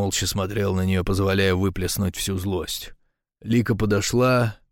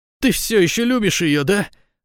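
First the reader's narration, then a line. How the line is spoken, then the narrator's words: Woman shouting. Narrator (Russian): закричала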